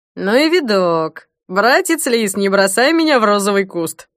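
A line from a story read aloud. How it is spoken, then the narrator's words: Clumsy joke, loud laughter. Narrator (Russian): Неумело сострил Смирнов и расхохотался собственной шутке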